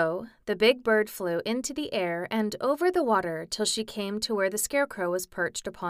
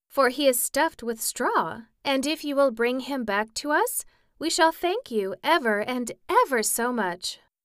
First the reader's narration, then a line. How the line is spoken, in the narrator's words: said Dorothy eagerly